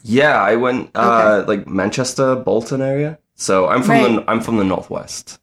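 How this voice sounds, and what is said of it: Northern English accent with Australian tinge. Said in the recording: “I sound Australian ... yes, you really do ... you just have a confusing accent ... like a mesh of the accents”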